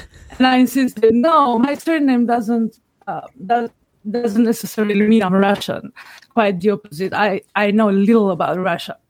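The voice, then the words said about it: Foreign accent. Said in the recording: “you have a funny accent”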